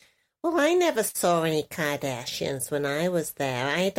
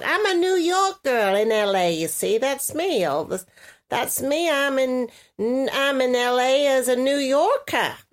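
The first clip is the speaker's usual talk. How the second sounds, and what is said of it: Put-on New York accent. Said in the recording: “you're going New York. You're doing New York.”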